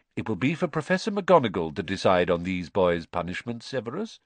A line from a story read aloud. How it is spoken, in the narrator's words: said Dumbledore calmly